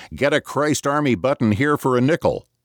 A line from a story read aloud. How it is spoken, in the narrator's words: Vendors, lewd-looking men, working 100 feet apart, are yelling